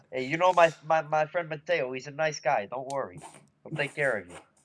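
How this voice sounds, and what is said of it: Put-on Italian accent. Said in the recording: “We have slipped into an accent. ... I don't recall any Italian blood in you.”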